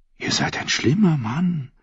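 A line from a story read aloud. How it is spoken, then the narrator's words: Whispered. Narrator (German): flüsterte die Königin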